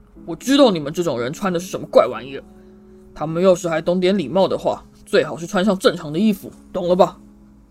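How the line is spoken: Angry roar. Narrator (Chinese): 他立刻怒吼道

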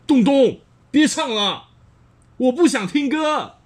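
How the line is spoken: Angry shout. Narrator (Chinese): 他生气地大叫

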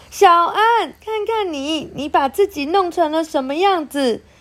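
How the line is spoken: Mother yelling. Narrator (Chinese): 妈妈……看见小安脏兮兮的模样，对着他大叫

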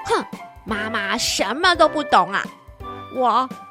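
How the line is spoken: Muttering to herself. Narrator (Chinese): 花小狮心里只是喃喃地嘀咕着说

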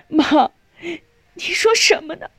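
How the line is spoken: Crying, pleading. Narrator (Chinese): 少英哭着哀求

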